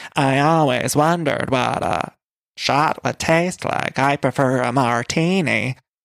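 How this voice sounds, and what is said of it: Impression of Patricia. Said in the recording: “my Patricia impression”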